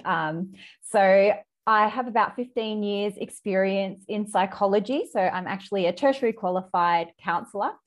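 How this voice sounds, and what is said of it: Australian accent. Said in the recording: “all around Australia, which you can probably tell by my accent.”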